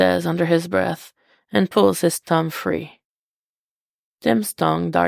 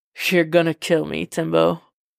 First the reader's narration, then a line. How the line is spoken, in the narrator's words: he chuckles